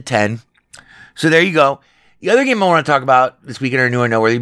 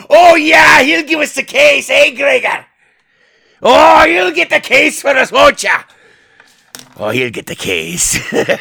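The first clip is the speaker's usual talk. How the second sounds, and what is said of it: Bad thick put-on Irish brogue. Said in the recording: “Little terrible Jonathan Pryce with a thick Irish brogue. ... who I did not offend with that impression.”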